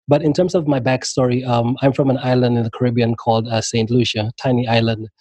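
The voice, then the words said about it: Worn, strained voice. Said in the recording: “excuse my voice,... I've been on like interviews all week and all like couple of weeks”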